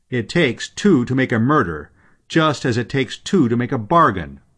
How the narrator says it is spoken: said Green in a loud voice

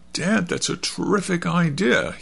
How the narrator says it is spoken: he exclaimed

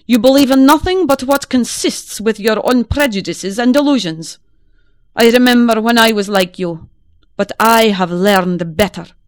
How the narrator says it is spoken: he answered testily

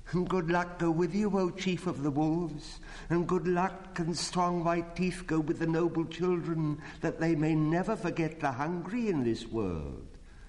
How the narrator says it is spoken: a little shadow with a bushy tail whined

